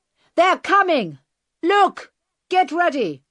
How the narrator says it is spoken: the bearded man shouted

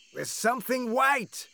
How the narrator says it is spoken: Jupiter shouted

